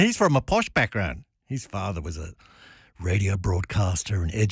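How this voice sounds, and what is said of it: Usual voice. Nothing is said of it.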